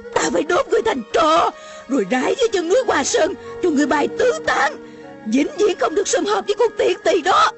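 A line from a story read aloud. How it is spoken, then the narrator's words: Shouting. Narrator (Vietnamese): Mụ la lên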